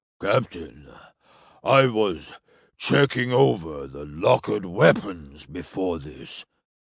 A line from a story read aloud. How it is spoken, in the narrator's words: he said in his steady basso voice